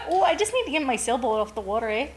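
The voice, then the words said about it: Put-on light Canadian accent. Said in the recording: “speaking in a light accent, which was maybe Canadian or British”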